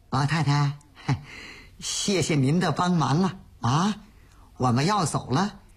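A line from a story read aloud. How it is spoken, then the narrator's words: Humble, low-voiced asking. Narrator (Chinese): 鲁青 低声下气的那儿问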